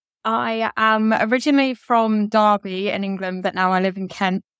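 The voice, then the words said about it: English accent. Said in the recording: “your accent tells us that you are not from the United States. You're joining us from across the pond.”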